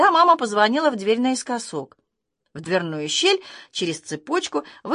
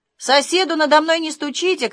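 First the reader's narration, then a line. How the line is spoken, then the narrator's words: Shouted after. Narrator (Russian): крикнул он нам вслед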